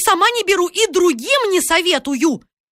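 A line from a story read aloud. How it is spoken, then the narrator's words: Ominous shouting. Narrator (Russian): Она кричала так зловеще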